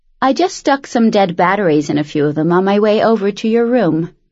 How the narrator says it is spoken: Penn said, in the same nonchalant tone of voice someone else might use to say, I just filled the car up with gas

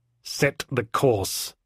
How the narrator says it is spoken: said Warden to me through her teeth

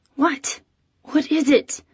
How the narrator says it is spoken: I mumbled to her

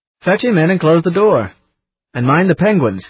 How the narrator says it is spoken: called out

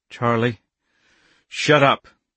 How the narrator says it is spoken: he said roughly

